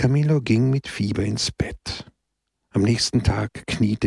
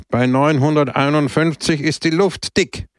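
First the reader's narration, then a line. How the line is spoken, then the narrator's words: Loud. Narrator (German): sagte er laut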